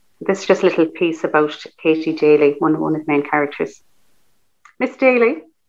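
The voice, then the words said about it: Irish accent. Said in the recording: “your lovely accent, because your Irish look definitely comes through”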